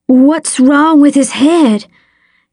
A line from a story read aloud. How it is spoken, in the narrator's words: Dale asked, his voice wavering